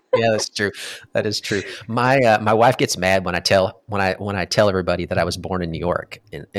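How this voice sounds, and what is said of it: Mild Southern American accent. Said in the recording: “I think it's great to have the Southern accent in there ... Oh yeah, definitely. At least you have more of one than I do ... Maybe you just have, you know, half of a Southern accent”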